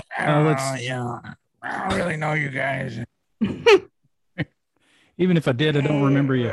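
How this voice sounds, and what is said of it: Artie Lang impression. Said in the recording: “my Artie Lang impression”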